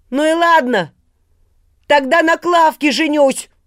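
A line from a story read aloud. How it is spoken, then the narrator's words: Shouted after someone. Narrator (Russian): крикнул он вдогонку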